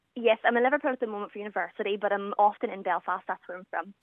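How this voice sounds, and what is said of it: Belfast Northern Irish accent. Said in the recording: “So you're in Belfast? ... we can tell that by the accent.”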